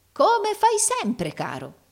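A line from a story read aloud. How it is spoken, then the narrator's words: Unrestrained exclamation. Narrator (Italian): esclamò il fratello Carlo, dimenticando interamente la sua dignità simulata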